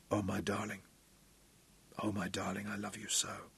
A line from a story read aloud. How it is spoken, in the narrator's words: he whispered to her